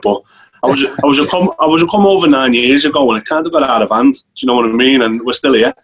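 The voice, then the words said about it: Scouse Liverpool accent. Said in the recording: “my accent ... that Scouse accent”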